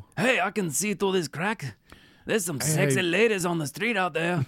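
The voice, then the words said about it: Put-on accent, slipping. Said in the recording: “Your accent is slipping.”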